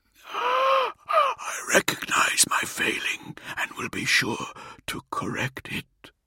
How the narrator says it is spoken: He whispered

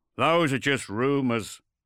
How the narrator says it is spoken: Torgal grunted

